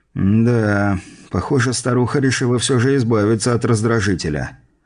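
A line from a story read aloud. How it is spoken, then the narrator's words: Sighing. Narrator (Russian): вздохнул я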